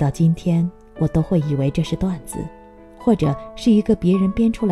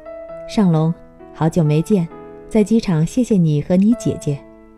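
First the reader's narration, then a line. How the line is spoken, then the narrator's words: Smiling. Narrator (Chinese): 她笑着说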